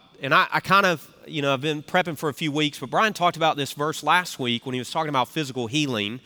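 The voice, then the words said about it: Southern US accent, congested voice. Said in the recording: “you could probably tell I grew up from the South with the way that I'm talking ... my voice is a little more wise than normal with all the congestion I'm feeling”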